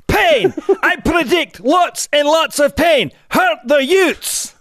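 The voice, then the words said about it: Put-on Scottish accent. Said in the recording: “We'll do it in Scottish... I couldn't understand any of that”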